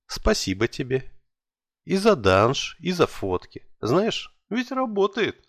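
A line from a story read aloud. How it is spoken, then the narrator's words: Laughing. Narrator (Russian): она рассмеялась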